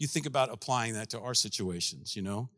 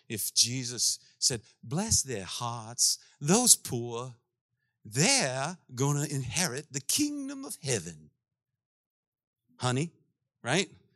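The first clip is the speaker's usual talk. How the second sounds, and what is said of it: Exaggerated put-on accent. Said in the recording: “that accent. You hate that accent because it's a terrible accent.”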